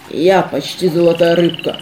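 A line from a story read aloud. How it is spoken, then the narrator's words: Hoarse bass monster voice. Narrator (Russian): хриплым басом продолжило чудище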